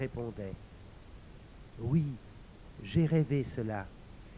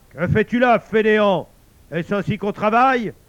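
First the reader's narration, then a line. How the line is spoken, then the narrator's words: Shouting. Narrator (French): cria-t-il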